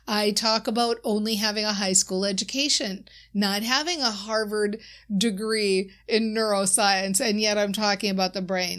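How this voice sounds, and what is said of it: Minnesota accent. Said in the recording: “I often talk about being from Minnesota. My accent certainly shows that.”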